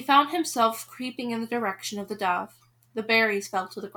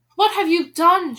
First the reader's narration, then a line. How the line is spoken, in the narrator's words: she cried